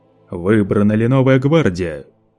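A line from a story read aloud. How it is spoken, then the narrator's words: Thunderous question. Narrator (Russian): Громовым голосом Лето вопросил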